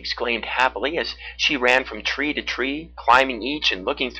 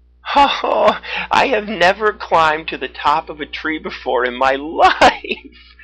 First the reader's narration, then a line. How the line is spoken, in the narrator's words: she said with laughter